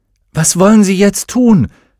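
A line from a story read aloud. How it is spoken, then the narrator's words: Shouting over noise. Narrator (German): rief gegen den Lärm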